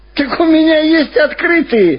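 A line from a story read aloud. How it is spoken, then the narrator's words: Happy, driver. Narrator (Russian): радостно сказал шофер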